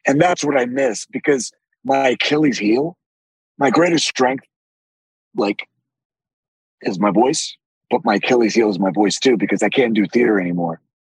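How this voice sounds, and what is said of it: Deep raspy voice. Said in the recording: “your trademark is your deep raspy voice ... My deep my deep raspy voice ... my voice was always deep, but it's gotten more raspy as I have gotten older”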